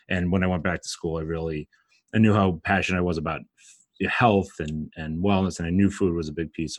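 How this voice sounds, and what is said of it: Brooklyn accent. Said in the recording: “I'm from Brooklyn, if you can't tell from my accent”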